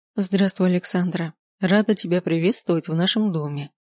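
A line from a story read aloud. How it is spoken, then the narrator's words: Said softly. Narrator (Russian): мягко сказала она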